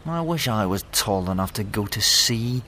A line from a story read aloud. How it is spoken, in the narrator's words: said the little fir, miserably